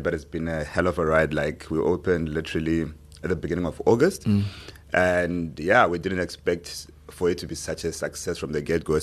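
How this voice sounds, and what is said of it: Tired-sounding voice. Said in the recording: “I sound so tired”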